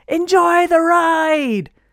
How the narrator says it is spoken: the girl yelled from far, far away

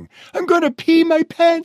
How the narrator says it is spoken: she cried

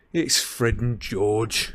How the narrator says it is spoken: he said bitterly

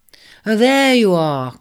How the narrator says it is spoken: cried Libra

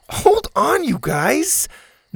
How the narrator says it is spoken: Zeta laughed

